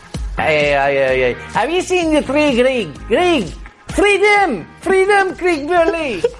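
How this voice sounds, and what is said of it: High-pitched shouted put-on Scottish accent. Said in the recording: “How is your Scottish accent? ... Why does your voice go so high? ... because I want to be like Mel Gibson, you know, shouting”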